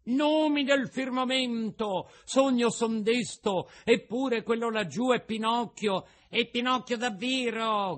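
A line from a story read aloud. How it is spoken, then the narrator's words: Shout. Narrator (Italian): grida Pulcinella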